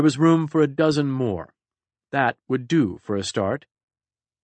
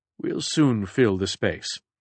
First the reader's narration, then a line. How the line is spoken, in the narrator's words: Picard said calmly